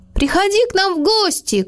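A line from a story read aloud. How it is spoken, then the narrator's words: Shouted after someone. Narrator (Russian): крикнул Мац ему вслед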